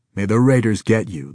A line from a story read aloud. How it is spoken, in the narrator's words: the scorpion snapped good-humoredly